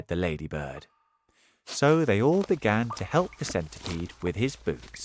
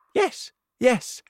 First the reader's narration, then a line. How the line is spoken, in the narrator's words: they cried